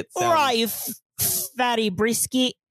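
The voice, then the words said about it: Attempted Cockney accent sounding Australian. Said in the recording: “You have to say it in a Cockney accent ... That's like Australian ... you're still doing Australian”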